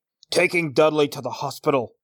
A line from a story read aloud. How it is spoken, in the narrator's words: growled Uncle Vernon